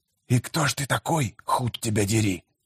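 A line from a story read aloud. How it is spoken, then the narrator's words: Hissed. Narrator (Russian): Прошипел он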